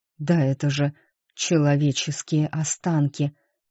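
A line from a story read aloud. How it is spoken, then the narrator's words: Breathless exhale. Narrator (Russian): выдохнул тот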